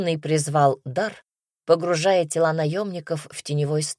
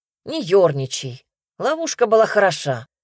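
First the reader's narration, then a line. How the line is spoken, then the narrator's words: Wry snort. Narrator (Russian): хмыкнул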